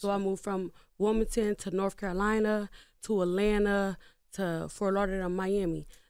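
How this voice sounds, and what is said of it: Southern American accent. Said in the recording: “a lot of people say I got a Southern accent”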